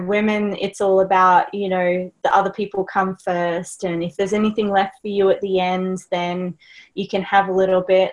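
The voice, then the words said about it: Australian accent. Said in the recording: “my accent, I'm Australian”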